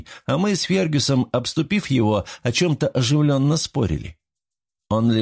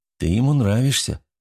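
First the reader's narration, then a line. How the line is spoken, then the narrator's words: Calm remark. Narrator (Russian): спокойно заметил я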